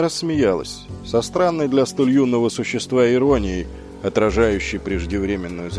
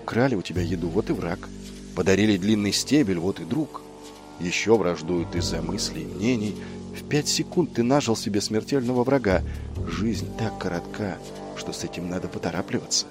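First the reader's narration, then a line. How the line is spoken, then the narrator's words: Feverish whisper in ear. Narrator (Russian): она лихорадочно шептала ему на ухо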